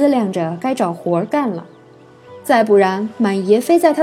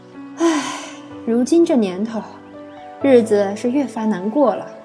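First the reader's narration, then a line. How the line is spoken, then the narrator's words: Sighing, weary. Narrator (Chinese): 九姨小小的打了个饱嗝，长吁了一口气，叹道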